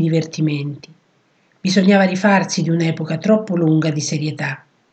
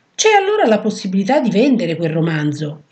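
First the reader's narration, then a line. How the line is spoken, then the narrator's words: Exclaimed. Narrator (Italian): esclamò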